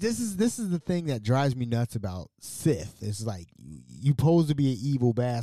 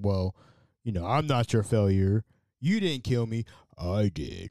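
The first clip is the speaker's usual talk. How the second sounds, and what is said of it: Different voice imitating Darth Vader. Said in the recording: “I'm talking in a different voice now. And now I'm Darth Vader.”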